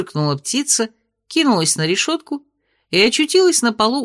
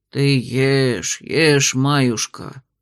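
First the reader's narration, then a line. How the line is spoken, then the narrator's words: Sighing. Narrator (Russian): вздохнул Никодимыч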